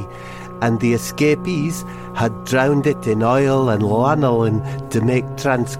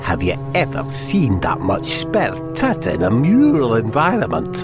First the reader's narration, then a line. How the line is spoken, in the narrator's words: muttered Hamish McFidgety